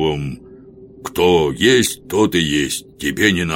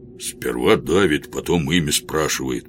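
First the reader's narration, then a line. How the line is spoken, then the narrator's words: Grumbling. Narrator (Russian): проворчал жихарь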